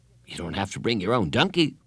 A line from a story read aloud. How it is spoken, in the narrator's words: said Carla